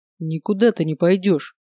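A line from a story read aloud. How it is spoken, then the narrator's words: Growling. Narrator (Russian): прорычал Олег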